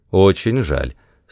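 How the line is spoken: Plain. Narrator (Russian): сказал Макс Делом

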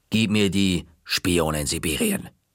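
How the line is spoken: Stern. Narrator (German): sagte sie streng

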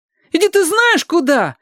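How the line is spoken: Loud feigned outrage. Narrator (Russian): завопил Костя, стараясь громкостью скрыть ненатуральность возмущения

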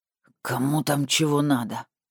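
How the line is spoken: Displeased growl. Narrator (Russian): прорычал недовольно Андрей

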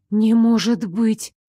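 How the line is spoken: Shocked breathless exhale. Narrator (Russian): потрясенно выдохнула я

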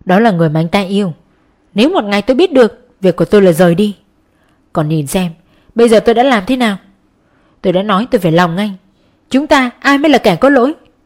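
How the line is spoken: Cold sneering tone. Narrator (Vietnamese): Mi cười nhạt

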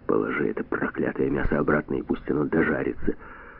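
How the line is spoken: Hoarse whisper. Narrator (Russian): Броди сказал хриплым шепотом

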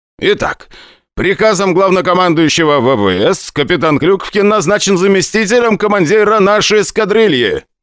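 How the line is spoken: Loud announcement. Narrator (Russian): громко объявил КМСК

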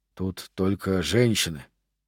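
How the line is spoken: Soldier muttering. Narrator (Russian): бормотал один солдат

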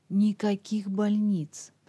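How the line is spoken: Hoarse rasp. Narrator (Russian): прохрипел Дуглас

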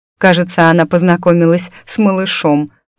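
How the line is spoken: Wry snort. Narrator (Russian): хмыкнула

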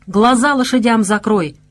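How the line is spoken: Worried shout. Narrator (Russian): обеспокоенно крикнул Лукаш

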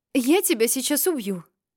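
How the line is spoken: Breathless gasp. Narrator (Russian): выдохнула во время короткой передышки

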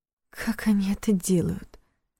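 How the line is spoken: Whispered question. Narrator (Russian): шепотом спросила Лиля

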